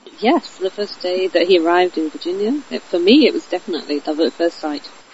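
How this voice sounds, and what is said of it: British English accent. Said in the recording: “you know from this accent that she's not from Culpeper, Virginia. You are from the UK? ... I'm from Malvern in Worcestershire”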